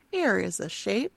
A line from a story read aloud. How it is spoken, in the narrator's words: Diane says quietly